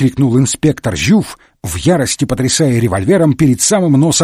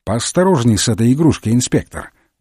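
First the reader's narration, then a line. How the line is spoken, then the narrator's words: Cold remark. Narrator (Russian): холодно обронил Холмс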